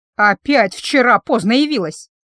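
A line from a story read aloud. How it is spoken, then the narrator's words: Displeased grumbling. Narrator (Russian): недовольным ворчанием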